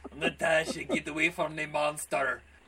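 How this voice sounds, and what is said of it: Imitates cartoon character's accent. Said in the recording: “did the voice of Boris on Bullwinkle ... we don't call for that accent”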